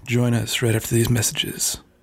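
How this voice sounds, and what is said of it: Creepy AM radio announcer voice. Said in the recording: “that was like creepy ... That was my AM voice. ... The AM radio voice.”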